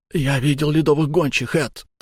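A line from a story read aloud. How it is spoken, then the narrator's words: Hurried whisper. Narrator (Russian): торопливо прошептал мне Эльнар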